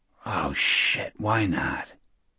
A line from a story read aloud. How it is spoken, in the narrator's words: whispered